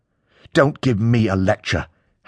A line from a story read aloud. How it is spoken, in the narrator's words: Harry growls through his teeth